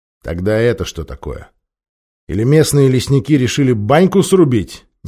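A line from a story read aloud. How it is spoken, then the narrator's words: Displeased question. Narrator (Russian): Недовольным тоном поинтересовался олигарх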